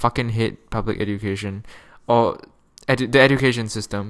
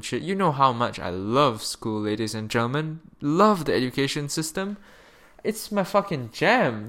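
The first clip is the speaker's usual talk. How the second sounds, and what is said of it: Sarcastic tone. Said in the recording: “I'm being sarcastic,”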